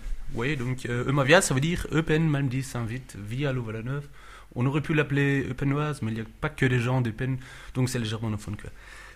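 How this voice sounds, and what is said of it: Slight German-speaker accent in French. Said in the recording (French): “Des germanophones ... Vous entendez peut-être, j'ai un léger accent”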